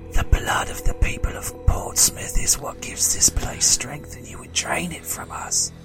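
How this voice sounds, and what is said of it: Whispering. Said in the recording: “I'm gonna whisper into his ear”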